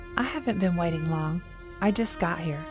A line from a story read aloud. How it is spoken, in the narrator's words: she answered softly